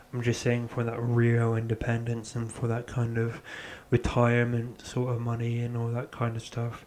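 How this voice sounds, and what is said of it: Raspy voice. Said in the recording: “My voice is really raspy today”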